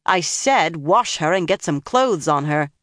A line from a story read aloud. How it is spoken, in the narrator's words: Nynaeve snapped